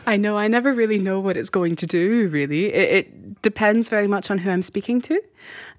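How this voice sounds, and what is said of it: Mixed American and Scottish accent. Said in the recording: “I love your accent... It is somewhere between Colorado and Scotland... It has this Atlantic feel to it.”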